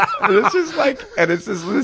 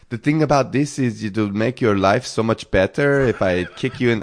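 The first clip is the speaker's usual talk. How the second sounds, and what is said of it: Poor put-on French accent. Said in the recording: “this French guy ... my accent's terrible.”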